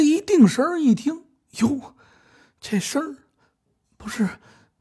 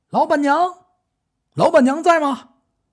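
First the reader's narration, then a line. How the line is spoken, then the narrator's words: Shout from outside. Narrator (Chinese): 外边有人喊了这么一声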